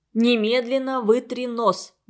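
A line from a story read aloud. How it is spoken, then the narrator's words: Stern command. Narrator (Russian): грозно сказал ему Игорь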